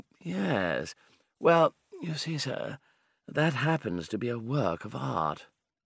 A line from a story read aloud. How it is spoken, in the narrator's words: said, drawling